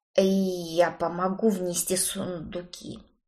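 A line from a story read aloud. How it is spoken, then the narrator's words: Quiet, timid. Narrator (Russian): тихо вымолвил Кроули, боясь встретиться со мной глазами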